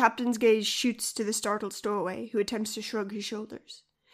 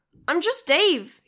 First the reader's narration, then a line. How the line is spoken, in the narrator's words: he blurts